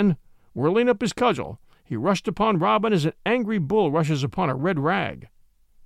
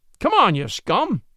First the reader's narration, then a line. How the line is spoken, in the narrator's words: cried he merrily